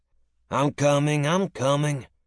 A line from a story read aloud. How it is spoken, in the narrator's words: the male voice called from inside, a deep, raspy cough following and growing louder as he got closer